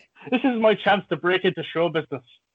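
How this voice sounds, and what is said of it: Put-on Irish accent. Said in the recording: “a little example of my own acting range there with my Irish accent”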